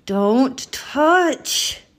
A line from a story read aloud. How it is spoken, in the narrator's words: Gritting her teeth, she growled